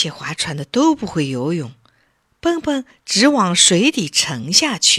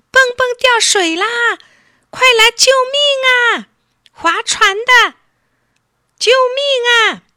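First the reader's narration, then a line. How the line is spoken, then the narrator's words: Panicked loud cries. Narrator (Chinese): 爸爸妈妈也不会游泳，大声呼叫起来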